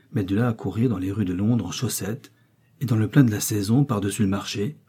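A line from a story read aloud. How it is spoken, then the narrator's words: Murmured. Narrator (French): murmura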